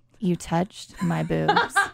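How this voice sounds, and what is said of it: Sexy voice. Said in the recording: “say that in a sexy voice”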